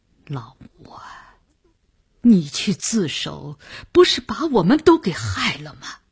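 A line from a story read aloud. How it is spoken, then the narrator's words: Resentful, near tears. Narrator (Chinese): 郑百祥皱着眉头，几乎也要哭出来了，他的语言已经注入了怨恨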